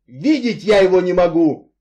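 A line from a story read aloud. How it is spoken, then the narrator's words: Furious shouting. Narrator (Russian): яростно кричал он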